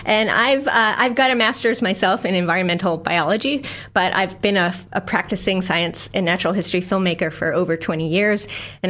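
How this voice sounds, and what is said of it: American accent. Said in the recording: “my funny little accent, I'm not a Kiwi. I'm from the U.S.”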